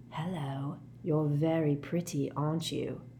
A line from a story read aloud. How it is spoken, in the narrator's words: whispering